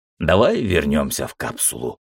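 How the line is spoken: Tired, smiling. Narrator (Russian): устало улыбнулся я

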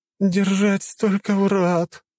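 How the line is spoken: Moaning. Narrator (Russian): простонала

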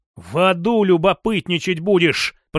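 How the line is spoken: Hissing. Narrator (Russian): прошипел я

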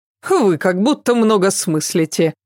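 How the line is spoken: Scoffing. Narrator (Russian): фыркнула она

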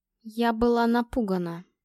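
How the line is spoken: Slow, careful. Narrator (Russian): медленно начала я

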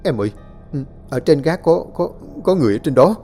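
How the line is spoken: Trembling reply. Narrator (Vietnamese): hắn mới run run đáp

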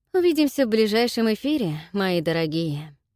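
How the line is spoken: Exhaled words. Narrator (Russian): Выдохнул

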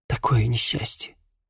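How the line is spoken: Whispered. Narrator (Russian): прошептала служанка

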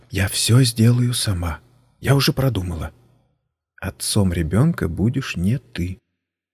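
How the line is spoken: Sighing whisper after pause. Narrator (Russian): после небольшой паузы, вздохнув, зашептала

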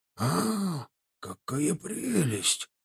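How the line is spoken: Whisper. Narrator (Russian): прошептал он

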